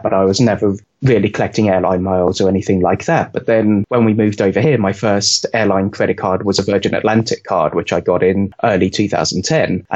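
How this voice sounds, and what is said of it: British English accent. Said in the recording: “As you could probably tell from my accent, I grew up in the UK”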